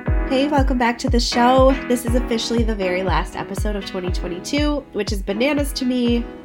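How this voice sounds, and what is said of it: Sick, under-the-weather voice. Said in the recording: “If you can't tell by my voice, I am feeling under the weather. I have caught whatever crud has been going around.”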